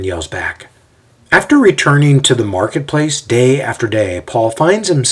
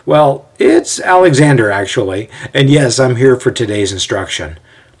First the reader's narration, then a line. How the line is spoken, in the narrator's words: The young man laughs at this and says